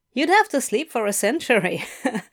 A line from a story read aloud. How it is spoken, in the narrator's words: laughed Adam